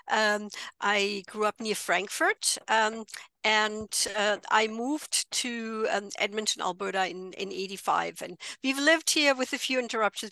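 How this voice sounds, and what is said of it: German accent. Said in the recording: “I'm originally from Germany, as you might be able to tell by the accent.”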